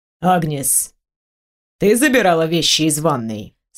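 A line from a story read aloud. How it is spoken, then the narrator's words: Calm question. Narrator (Russian): спокойно спросил Антуан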